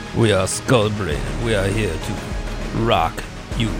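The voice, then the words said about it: Put-on Russian accent. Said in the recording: “I don't know why he had a Russian accent”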